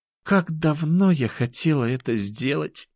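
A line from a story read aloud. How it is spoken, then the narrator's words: Murmuring. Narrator (Russian): пробормотала она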